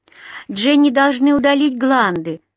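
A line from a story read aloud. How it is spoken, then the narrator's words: Sobbing. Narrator (Russian): всхлипывала Ди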